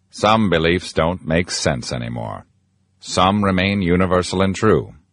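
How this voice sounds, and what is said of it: Morgan Freeman impression. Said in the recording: “that's not actually Morgan Freeman. It's actor John Viner from The Family Guy doing an impression.”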